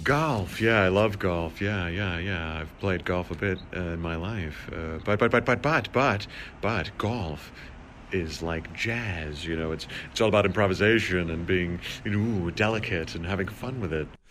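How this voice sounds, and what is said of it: Jeff Goldblum impression. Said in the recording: “That's a guy doing an impression of Jeff Goldblum. ... Fantastic. ... Very good.”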